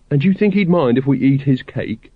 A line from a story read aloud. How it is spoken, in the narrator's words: said Carrot wistfully